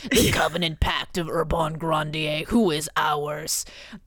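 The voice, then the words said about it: Demon voice. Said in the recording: “I should be doing a demon voice.”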